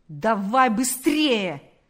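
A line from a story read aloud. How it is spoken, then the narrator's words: Shouting policeman. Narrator (Russian): закричал полицейский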